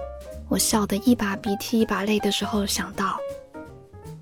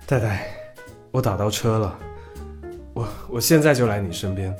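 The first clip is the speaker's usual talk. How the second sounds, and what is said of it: Breathless, panting speech. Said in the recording (Chinese): “用气喘吁吁的声音说”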